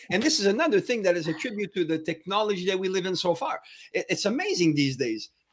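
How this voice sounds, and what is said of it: French accent. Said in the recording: “everybody absolutely notices that I got my French accent”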